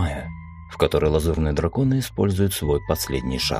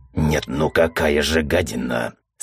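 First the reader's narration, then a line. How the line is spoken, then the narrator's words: Hateful hiss. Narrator (Russian): с ненавистью прошипел Мизраил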